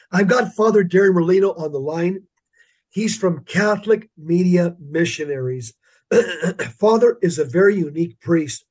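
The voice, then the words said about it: Hoarse, congested voice. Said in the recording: “Kind of lost my voice, and I've got a head cold.”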